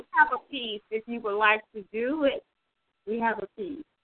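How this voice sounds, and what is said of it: Southern drawl. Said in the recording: “you always get me with that southern drawl”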